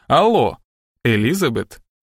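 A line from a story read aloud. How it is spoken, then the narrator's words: Tender. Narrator (Russian): ласково произнес детектив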